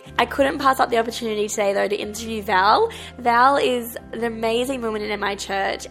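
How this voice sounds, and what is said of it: Sick voice, unusual pitch. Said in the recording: “apologize for my voice. ... I thought it would definitely be at a different pitch by now, but I am a bit sick.”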